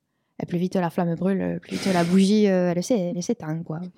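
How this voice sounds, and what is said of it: Put-on southern French accent. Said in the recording (French): “pourquoi l'accent du sud?”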